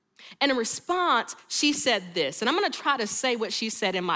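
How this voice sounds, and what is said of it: Usual voice. Nothing is said of it.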